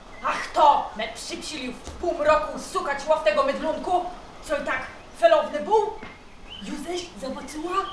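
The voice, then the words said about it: Stylized Kurpie regional dialect. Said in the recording (Polish): “próbujemy mówić z ... Gwarą Kurpiowską ... nie mówimy gwarą, tylko że jest to język duchów puszczy, nasz specjalny, trochę podobny do kurpiowskiego”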